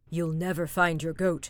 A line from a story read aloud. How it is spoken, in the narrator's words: grumbled Jens